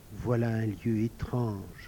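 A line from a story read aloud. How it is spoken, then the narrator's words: Murmuring. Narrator (French): murmura Gaspard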